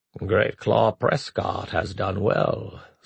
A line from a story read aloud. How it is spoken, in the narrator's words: Zarnak purred